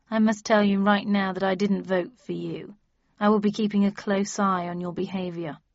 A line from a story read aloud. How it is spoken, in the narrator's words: he said dryly